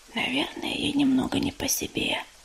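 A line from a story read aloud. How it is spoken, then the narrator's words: Whispered reply. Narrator (Russian): прошептала в ответ Листвичка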